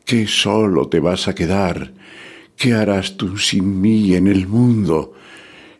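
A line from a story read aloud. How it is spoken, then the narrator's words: Exclaiming. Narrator (Spanish): exclamaba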